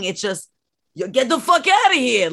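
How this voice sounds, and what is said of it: Put-on New York accent. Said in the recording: “I did like his accent. He was very New York.”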